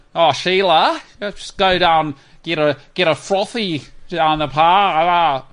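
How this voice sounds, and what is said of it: Mock Australian accent. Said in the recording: “That's what they sound like. ... Australian accent”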